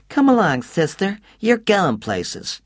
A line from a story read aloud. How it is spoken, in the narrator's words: in a surprising baby voice said